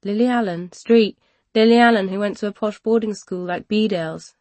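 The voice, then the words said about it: London accent. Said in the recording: “my London accent”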